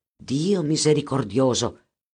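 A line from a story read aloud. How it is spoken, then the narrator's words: Exclaiming. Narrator (Italian): esclamò Edgardo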